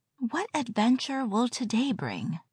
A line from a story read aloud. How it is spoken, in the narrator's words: murmured to herself